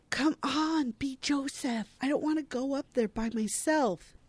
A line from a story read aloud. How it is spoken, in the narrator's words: Kate hisses at Brad Lando